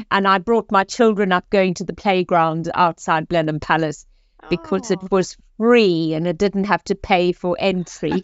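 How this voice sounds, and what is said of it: South African accent. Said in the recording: “as you can hear from my accent, I am originally South African”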